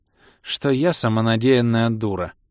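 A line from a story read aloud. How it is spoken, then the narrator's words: Unhappy sigh. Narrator (Russian): несчастно вздохнуло ее величество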